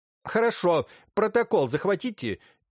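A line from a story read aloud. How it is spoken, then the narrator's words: Police chief answered loudly. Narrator (Russian): громко ответил исправник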